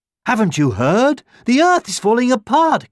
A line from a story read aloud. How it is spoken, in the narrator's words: cried the deer and the hares